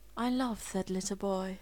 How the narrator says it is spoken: she murmured

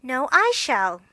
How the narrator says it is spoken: cried Amy

